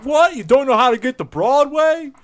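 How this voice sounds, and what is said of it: Weak put-on Brooklyn accent. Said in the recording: “That's not a good Brooklyn accent, but I can't do a Brooklyn accent.”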